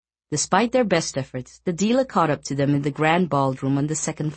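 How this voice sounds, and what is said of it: Usual voice. Nothing is said of it.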